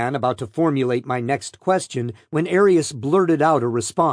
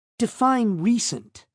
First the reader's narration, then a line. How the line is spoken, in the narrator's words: Arius countered sharply